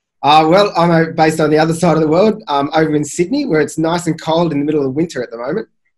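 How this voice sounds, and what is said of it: Non-American accent. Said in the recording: “that doesn't sound like an American accent.”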